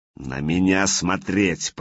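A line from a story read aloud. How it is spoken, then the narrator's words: Hissing. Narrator (Russian): прошипел Владимир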